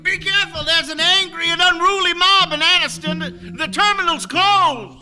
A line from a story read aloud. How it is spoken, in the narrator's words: A white man yelled in the window